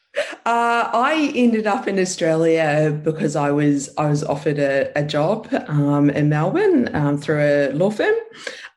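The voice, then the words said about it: New Zealand accent. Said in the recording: “there is an accent there coming through from my homeland, actually, from New Zealand”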